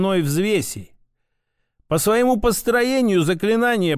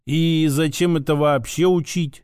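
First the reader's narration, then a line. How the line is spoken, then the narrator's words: Drawled. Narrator (Russian): протянул я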